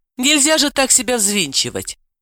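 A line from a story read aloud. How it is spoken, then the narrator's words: Relieved sigh. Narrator (Russian): Далила сказала, вздохнув с большим облегчением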